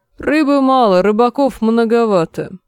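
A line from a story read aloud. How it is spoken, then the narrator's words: Gloomy, curt. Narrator (Russian): мрачно отрезал лорд Пэсбери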